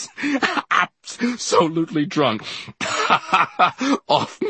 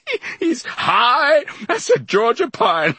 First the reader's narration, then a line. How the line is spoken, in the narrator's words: I laughed